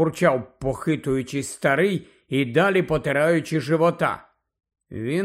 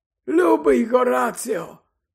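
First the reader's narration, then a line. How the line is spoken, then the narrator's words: Cheerful explanation. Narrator (Ukrainian): радісно пояснив Дамблдор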